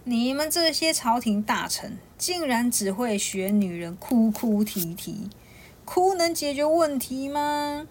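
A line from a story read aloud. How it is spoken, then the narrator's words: Loud laughter. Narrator (Chinese): 突然有人哈哈大笑，说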